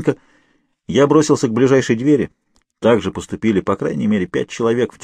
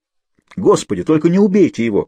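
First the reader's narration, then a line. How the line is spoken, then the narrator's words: Exclaiming. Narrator (Russian): воскликнул я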